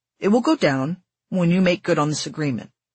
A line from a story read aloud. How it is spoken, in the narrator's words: Towson said